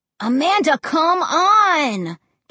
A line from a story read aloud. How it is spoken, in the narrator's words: Josh whined